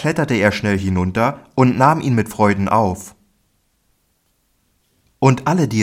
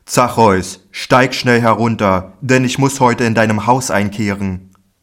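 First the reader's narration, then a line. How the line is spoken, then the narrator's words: Called up to someone. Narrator (German): rief zu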